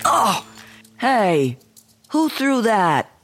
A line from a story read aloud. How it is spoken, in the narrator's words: shouted one of the boys